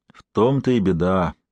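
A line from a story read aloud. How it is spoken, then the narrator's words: Heavy sigh. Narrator (Russian): тяжело вздохнул Михаил Семенович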